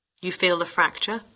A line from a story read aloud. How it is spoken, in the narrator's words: he asked